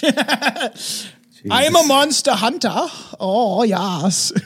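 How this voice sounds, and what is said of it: Put-on French accent. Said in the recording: “It was originally supposed to be Australian... Oh, now I'm French... that accent”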